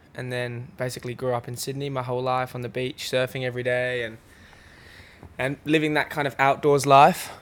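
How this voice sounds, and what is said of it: Australian accent. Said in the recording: “Is it an Australian accent? Do I hear there, or am I mistaken?”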